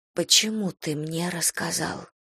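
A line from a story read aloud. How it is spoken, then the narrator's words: Drowsy uncertain whisper. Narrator (Russian): Прошептала я, даже не уверенная, что еще не сплю и не зная, почему спрашиваю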